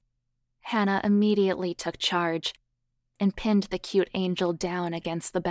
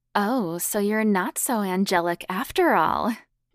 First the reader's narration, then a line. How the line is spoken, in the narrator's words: she said playfully against Donna's lips